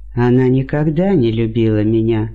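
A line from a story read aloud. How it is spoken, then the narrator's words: Gloomy. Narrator (Russian): мрачно сказал он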